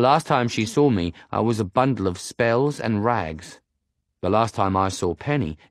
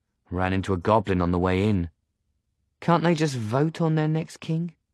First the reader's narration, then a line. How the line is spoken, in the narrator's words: Her voice is light, but I can tell she's sizing me up